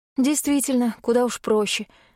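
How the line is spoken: Sigh. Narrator (Russian): вздохнула я

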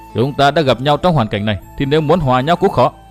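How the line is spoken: Loud laughter. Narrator (Vietnamese): Nguyên Bình cười to

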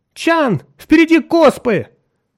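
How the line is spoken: Sudden shout. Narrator (Russian): неожиданно закричала Нарна

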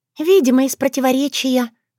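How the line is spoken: Sighing. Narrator (Russian): вздохнула Шушана

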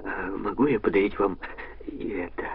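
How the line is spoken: Timid question. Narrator (Russian): робко спросил

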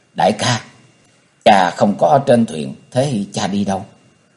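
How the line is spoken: Soft question. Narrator (Vietnamese): khẽ hỏi

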